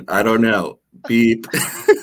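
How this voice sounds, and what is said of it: Robotic bot voice. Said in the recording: “My best bot impression.”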